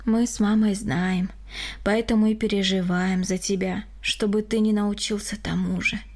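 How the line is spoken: Sighing. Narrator (Russian): вздохнул Григорий

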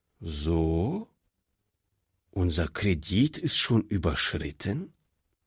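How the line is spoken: Calm question. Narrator (German): fragte der Direktor, wie ruhig er die Frage stellen konnte

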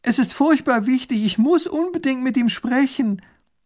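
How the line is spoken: Calling after someone. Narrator (German): ruft hinter der Kutsche her

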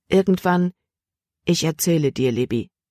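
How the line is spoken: Plain. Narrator (German): sagte

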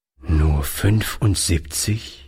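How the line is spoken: Old man, sad. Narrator (German): wiederholte der Alte traurig

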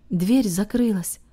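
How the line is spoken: Breaking silence, deep sigh. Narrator (Russian): произнес Харт, нарушив тишину и глубоко вздохнув

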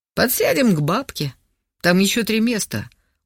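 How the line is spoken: Tired hoarse rasp. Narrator (Russian): устало прохрипел Богдан

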